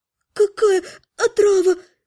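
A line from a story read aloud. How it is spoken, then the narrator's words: Sobbing. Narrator (Russian): всхлипнула Наташа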